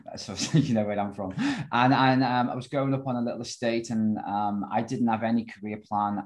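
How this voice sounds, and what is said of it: Liverpool accent. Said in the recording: “I obviously come from Liverpool, never lost the accent.”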